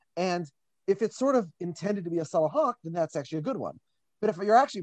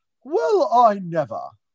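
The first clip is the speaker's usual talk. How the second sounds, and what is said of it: Put-off, polite British accent. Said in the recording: “a put off, but very polite British person ... with that accent”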